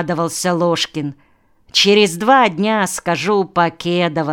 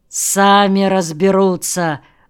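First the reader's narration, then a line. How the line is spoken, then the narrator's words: Grumbling mutter. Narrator (Russian): буркнул Воронцов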